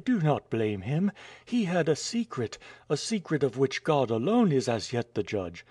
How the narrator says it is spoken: cried Nadia

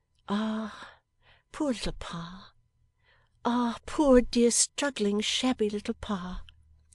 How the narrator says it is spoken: Not so gaily, but that she several times said

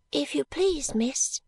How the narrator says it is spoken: pursued Charlie in the same soft voice

